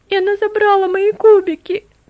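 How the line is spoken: Child sobbing. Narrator (Russian): всхлипнул ребенок

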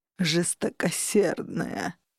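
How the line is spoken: Mock groaning man. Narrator (Russian): притворно застонал мужчина

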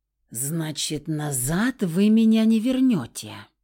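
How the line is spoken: Nearly hissed. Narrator (Russian): практически прошипел Феникс

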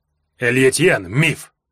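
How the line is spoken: Sharp interruption. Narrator (Russian): резко перебил меня Арев

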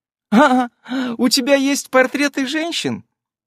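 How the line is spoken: Ugly laugh. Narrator (Russian): Она засмеялась дурным смехом

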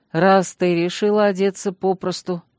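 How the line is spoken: Calm statement. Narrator (Russian): спокойно заявил он

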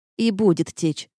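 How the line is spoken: Grumbling. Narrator (Russian): буркнула я

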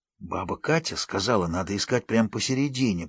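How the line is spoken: Whisper. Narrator (Russian): прошептал Игорь

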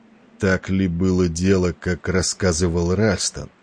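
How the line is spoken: Hoarse, almost anxious. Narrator (Russian): голос его прозвучал хрипло, почти тревожно

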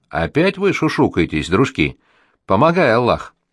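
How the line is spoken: Sharp warning exclamation. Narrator (Russian): мать восклицает предупреждающим резким тоном

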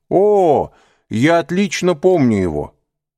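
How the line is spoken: Exclaiming. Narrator (Russian): воскликнул господин де Бувиль

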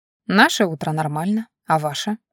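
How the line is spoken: Perfectly calm. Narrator (Russian): совершенно спокойным тоном отозвалась я

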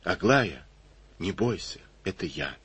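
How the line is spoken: Quiet reply. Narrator (Russian): тихо ответил

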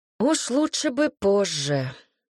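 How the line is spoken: Sigh. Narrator (Russian): вздохнул Лихно

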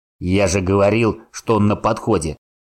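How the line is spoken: Growled. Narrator (Russian): прорычал Гриша своему товарищу

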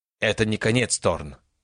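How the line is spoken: Hissing. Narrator (Russian): прошипел он

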